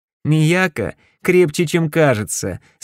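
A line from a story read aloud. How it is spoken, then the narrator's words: Laughing declaration. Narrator (Russian): смеясь заявил я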